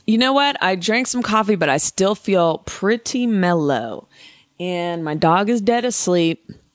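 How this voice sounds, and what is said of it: Gravelly morning voice. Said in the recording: “My voice is gravelly.”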